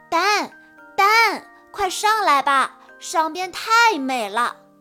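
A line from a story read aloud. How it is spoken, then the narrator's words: Shouting. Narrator (Chinese): 本大声喊道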